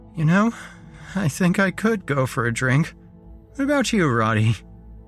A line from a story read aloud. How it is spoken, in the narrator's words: I heard myself say in an exhausted, lunatic voice that I didn't even recognize